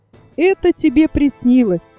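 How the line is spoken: Said laughing. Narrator (Russian): он сказал мне, смеясь

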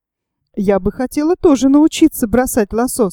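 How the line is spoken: Plain. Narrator (Russian): сказала молодая креолка

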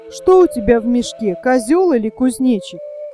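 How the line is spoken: Loud pleased laughter. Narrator (Russian): он громко расхохотался, довольный своей шуткой

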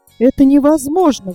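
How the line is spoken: Exclamation. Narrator (Russian): воскликнула она

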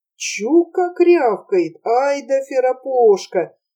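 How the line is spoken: Admiring whispers. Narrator (Russian): восхищенно перешептывались они

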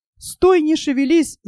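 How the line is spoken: Shout. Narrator (Russian): закричал Мартин

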